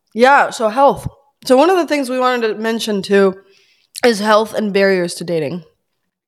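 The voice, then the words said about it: Raspy, hoarse voice. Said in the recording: “very sleep deprived ... probably sick. So if we sound strange ... sexy voice ... The rasp is here.”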